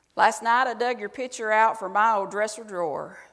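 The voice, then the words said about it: Exaggerated Southern accent. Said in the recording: “I'm going to have to say it in an exaggerated Southern voice.”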